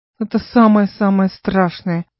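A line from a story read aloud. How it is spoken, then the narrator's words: Mournful voice. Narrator (Russian): скорбным голосом произнес Гай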